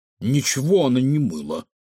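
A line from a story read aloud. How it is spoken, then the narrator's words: Snorted. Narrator (Russian): фыркнул Кефир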